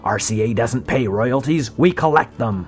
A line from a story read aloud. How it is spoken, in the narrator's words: Sarnoff snapped